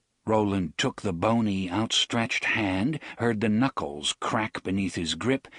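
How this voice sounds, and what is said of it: Usual voice. Nothing is said of it.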